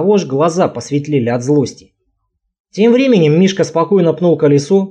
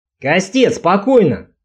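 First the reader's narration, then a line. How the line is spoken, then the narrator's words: Cheerful shout. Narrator (Russian): крикнул он весело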